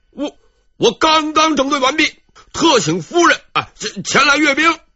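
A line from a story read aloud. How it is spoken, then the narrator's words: Loud, unyielding. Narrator (Chinese): 戚继光这回没有示弱，大声说道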